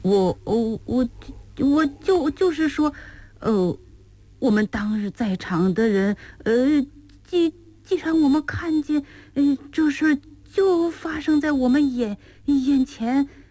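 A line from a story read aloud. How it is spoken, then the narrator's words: Startled stammering. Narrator (Chinese): 老爷这突如其来的问话，使冷乾不由得暗吃一惊，他结结巴巴地说道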